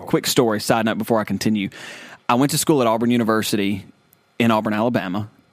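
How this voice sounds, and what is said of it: Southern American accent. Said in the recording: “small town Southern America. Never thought, if you can tell by the way, yes, we are from the South. ... By our accent.”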